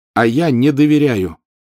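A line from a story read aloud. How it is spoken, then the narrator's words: Loud declaration. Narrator (Russian): все так же громко заявил он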